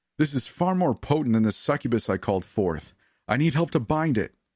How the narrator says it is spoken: Amunda shouted

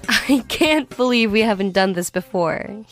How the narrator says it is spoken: he laughed

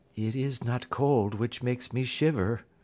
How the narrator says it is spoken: said the woman in a low voice

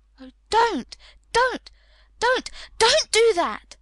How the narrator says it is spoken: she cried out

